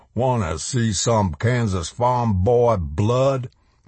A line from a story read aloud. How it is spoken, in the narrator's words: Black Frankenstein bellowed